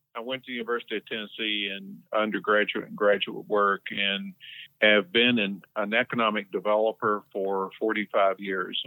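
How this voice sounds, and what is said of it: Southern American (Tennessee) accent. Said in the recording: “I'm originally from Tennessee, as you can probably tell from my accent.”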